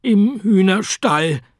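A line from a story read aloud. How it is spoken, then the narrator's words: Croaking egg man. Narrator (German): krächzte der Eiermann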